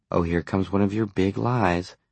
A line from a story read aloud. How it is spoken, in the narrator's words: Sarah said uneasily